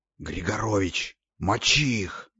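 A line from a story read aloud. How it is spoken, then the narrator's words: Hissed. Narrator (Russian): зашипел я снайперу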